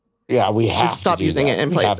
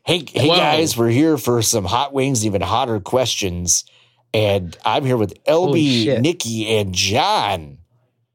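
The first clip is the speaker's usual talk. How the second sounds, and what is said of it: Imitates another person's voice. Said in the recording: “your impression of Sean Hot Ones ... So make it really good.”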